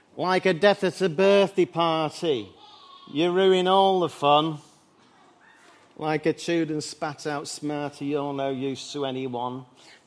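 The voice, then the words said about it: Good impression, Mancunian accent. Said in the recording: “quite a good impression... Being a Mancunian”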